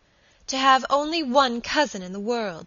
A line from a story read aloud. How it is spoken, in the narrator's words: she cried passionately